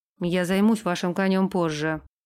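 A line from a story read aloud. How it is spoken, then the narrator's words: Blacksmith gruff mumble. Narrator (Russian): буркнул кузнец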